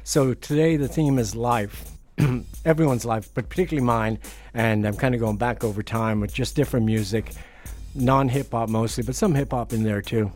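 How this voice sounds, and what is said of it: Slightly hoarse voice. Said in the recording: “I'm a little hoarse today. ... I'm hoarse because I smoked a joint out the back.”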